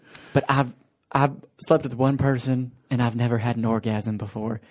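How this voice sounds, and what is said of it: Imitated not-very-good southern accent. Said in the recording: “She has a southern accent. ... it's not very good southern accent.”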